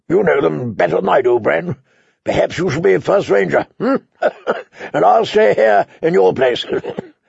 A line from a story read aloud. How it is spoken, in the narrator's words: Benjen Stark had laughed and said